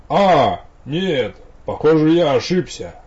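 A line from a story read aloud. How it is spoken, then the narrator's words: Satisfied booming voice. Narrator (Russian): удовлетворенно прогудел поэт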